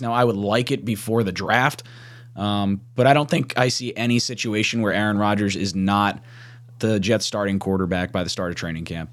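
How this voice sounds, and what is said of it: Hoarse, strained voice. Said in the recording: “My voice is shot. I was already getting sick, and now my voice is just jacked.”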